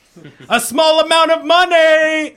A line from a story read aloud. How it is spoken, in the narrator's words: they shouted in unison